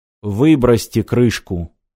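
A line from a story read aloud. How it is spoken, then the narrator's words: Icy command. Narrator (Russian): ледяным тоном распорядился Сагетти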